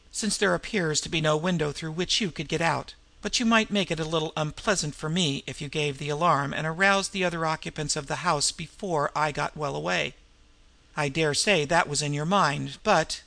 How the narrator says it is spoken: observed evenly

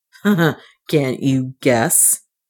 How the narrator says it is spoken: he answered with a bitter laugh

